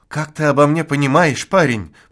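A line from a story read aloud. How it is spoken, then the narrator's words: Moaning old forester. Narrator (Russian): простонал лесник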